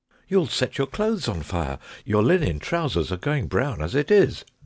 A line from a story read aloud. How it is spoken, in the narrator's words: I cried